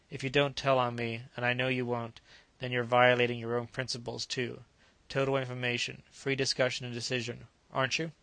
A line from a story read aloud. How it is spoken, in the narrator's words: She sighed